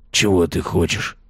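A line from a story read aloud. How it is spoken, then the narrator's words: Whispering. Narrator (Russian): прошептал он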